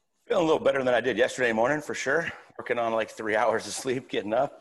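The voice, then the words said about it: Strained, worn-out voice. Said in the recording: “As you could probably hear, my voice is still not back to normal.”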